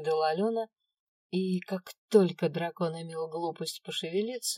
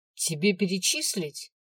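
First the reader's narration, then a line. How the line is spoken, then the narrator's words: Angry question. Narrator (Russian): зло вопросила я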